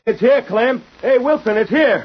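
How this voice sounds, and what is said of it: Loud calling shout. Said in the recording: “repeat the same words you used that night and in the same tone of voice ... You call louder than that. Try again.”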